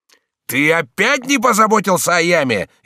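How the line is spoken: Frenzied shout. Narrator (Russian): исступленно крикнул он

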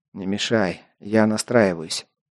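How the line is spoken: Displeased mutter. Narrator (Russian): недовольно буркнул я

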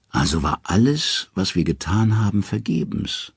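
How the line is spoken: Tired. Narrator (German): sagt Odin müde

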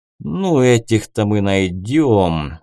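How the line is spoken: Angry hiss. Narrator (Russian): зло прошипел Риск

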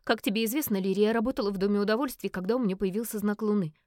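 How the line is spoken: Quick speech. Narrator (Russian): быстро заговорила Фиона

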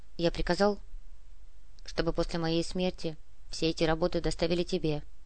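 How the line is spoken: Quiet. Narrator (Russian): тихо произнес Аркадий

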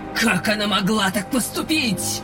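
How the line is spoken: Sharp furious question. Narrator (Russian): Резко поинтересовалась Сгаэль, и от звучавшей в ее голосе ярости эти слова резали не хуже кинжалов

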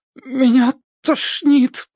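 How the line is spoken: Moaning, mouth full. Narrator (Russian): простонала с полным кислоты ртом

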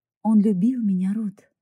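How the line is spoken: Slow, deliberate. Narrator (Russian): медленно выговорила она

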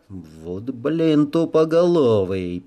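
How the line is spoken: Hissed. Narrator (Russian): прошипел я

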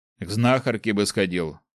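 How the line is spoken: Amused grunt. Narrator (Russian): хмыкнул Ник

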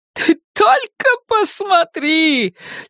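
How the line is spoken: Triumphant shout. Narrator (Russian): чуть ли не с триумфом закричала Карла

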